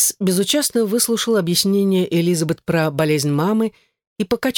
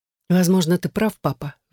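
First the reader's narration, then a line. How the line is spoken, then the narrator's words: Sighing. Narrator (Russian): вздохнула Элизабет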